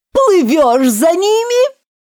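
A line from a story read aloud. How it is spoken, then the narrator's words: Joyful yell. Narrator (Russian): радостно завопил Грифон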